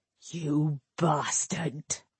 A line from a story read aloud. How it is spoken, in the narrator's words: A Doric whispered so low that Gowrion could barely hear him